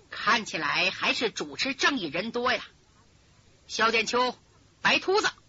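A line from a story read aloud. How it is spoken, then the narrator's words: Cold, gleeful. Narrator (Chinese): 慈云师太乐坏了，冷冷的说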